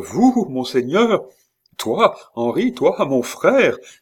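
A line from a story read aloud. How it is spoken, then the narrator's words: Horseman's exclamation. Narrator (French): s'écria l'autre cavalier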